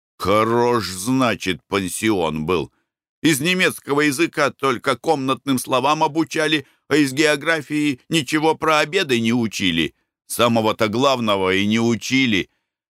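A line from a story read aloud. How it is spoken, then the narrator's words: Grumbled. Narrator (Russian): Николай Иванович проворчал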